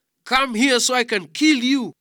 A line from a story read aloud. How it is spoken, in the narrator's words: Goliath … he was very much annoyed and shouted